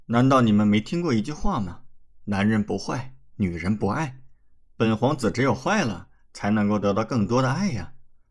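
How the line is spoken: Mischievous smirking. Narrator (Chinese): 李准则坏笑道

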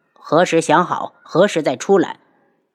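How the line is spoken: Cold voice. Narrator (Chinese): 轩辕志冷声

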